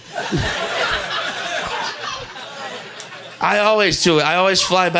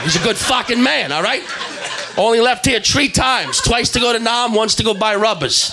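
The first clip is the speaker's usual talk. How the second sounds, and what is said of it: Exaggerated, poor Boston accent. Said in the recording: “I know that's a terrible Boston accent”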